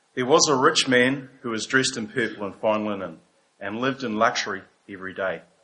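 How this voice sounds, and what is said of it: New Zealand accent. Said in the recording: “New Zealand accent.”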